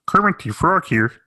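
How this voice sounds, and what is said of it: Kermit the Frog impression. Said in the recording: “I can only do one impression ... That's my only one.”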